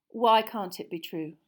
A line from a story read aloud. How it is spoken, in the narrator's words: Lupin said calmly, as though they were in class and Hermione had simply spotted a problem in an experiment with Grindylows